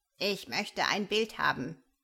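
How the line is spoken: Friendly croak. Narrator (German): krächzt er freundlich

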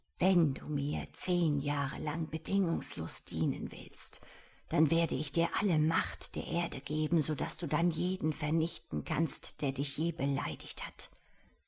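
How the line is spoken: Soft smooth voice. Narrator (German): eine leise, glatte Stimme sagen

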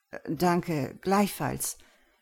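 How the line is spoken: Stammering, slightly unsure. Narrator (German): stammelte ich jetzt noch ein wenig verunsichert

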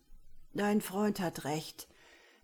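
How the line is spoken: Old man, fear-weakened voice. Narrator (German): meldete sich mit angstschwacher Stimme der Alte zu Wort

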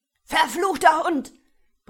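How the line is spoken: Group roaring. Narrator (German): brüllten die Studenten

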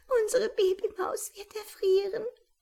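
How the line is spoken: Sobbing. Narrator (German): schluchzte

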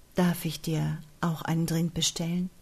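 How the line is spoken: Gentle, winning question. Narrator (German): fragte der Rilkemann sanft und gewinnend

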